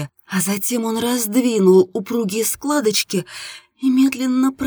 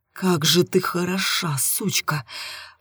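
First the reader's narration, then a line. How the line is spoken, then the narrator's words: Hissed through clenched teeth. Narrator (Russian): шипел он сквозь стиснутые зубы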